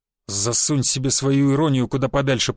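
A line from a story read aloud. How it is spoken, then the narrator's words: Grumbling mutter. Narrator (Russian): пробурчал Буян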